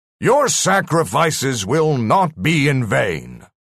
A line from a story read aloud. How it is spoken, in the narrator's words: the voice boomed out